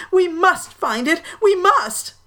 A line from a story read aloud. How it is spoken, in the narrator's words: Uncle Ulysses was moaning